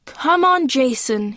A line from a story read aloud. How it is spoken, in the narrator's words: he yells